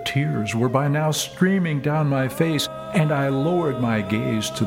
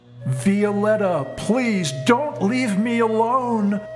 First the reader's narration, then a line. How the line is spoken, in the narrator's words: screaming at the top of my lungs